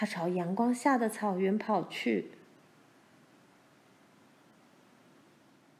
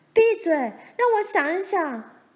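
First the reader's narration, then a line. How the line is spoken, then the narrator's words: Shrieking. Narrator (Chinese): 罗兰也尖叫起来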